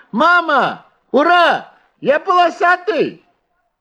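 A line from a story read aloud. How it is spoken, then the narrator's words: Shouting excitedly. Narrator (Russian): закричал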